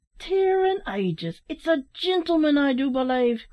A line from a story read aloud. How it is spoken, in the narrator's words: cried Larry, with a look of surprise